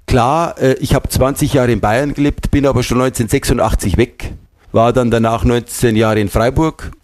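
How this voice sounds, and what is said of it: Bavarian-accented German. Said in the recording (German): “Der bayerische Dialekt, der hat so was Eigenartiges, der hängt einem an, den wird man quasi gar nicht los. Das heißt, man hat eine Art von Färbung immer ... Das ist auffällig anders”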